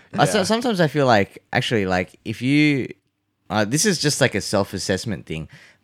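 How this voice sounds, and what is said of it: Australian accent. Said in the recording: “I think you always just sound... really Aussie... you have a bit of wog in that accent... you do sound like an Aussie Asian”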